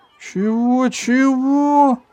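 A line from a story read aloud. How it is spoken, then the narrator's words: Nearly shouted. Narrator (Russian): почти крикнул Иван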